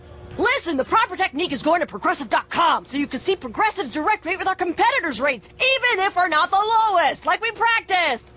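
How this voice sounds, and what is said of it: Coach giving a pep talk. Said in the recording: “my impression of a coach giving the ultimate pep talk”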